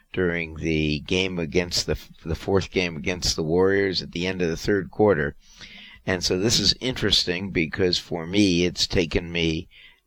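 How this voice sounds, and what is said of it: Hoarse, worn-out voice. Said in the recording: “my voice is more hoarse than usual ... My voice ran out”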